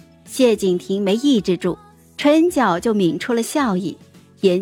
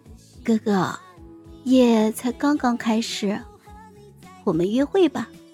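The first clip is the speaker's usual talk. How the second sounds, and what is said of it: Soft, whining murmur. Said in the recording (Chinese): “小声的哼唧道”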